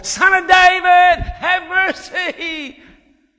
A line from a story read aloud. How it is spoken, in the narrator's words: he shouted all the more